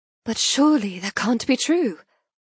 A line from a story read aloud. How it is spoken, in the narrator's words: I gasp